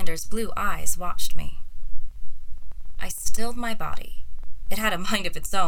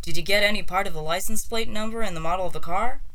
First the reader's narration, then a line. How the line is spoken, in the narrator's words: I sighed